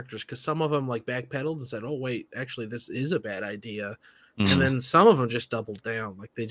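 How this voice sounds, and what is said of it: Usual voice. Nothing is said of it.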